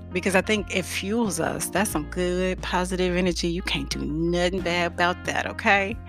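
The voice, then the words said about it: Country accent. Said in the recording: “all my country accent coming out”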